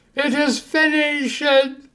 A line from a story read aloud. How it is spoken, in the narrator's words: Jesus again cried out in a loud voice